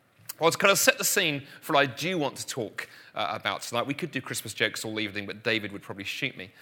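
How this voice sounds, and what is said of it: London English accent. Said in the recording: “living in London, where I grew up, which is the accent you're hearing”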